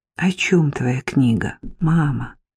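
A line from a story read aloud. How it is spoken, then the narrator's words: Gentle question. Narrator (Russian): ласково спросила я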